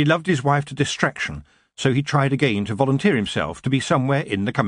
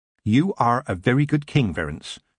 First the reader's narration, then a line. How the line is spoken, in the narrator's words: his wife said firmly